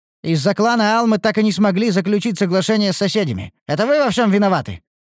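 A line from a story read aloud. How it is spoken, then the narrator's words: Sharp shout. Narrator (Russian): прикрикнул другой эльф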